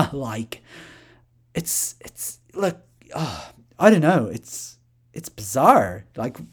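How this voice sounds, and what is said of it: Usual voice. Nothing is said of it.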